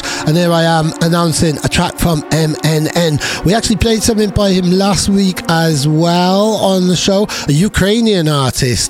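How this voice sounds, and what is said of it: Croaky voice with Welsh accent. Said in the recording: “I sound all croaky and Welsh”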